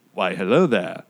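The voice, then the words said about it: Poor Alec Guinness impression. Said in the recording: “the worst Alec Guinness impersonation in the world”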